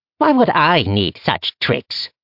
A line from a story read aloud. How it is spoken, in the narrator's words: Dross sneered